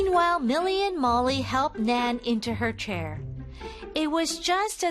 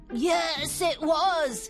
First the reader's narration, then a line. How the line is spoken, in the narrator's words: croaked